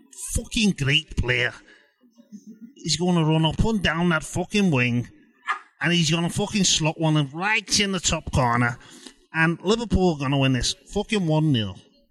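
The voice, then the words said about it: Put-on Scouse accent. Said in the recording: “Was that a man called Scouse? ... I went Scouse. ... There even was a Scott for a second”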